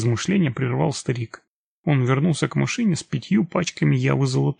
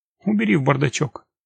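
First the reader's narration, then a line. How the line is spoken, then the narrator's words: Dry command. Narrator (Russian): сухо скомандовал он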